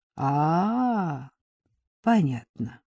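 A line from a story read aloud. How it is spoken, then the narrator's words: Slow drawl. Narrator (Russian): медленно протянул Сандро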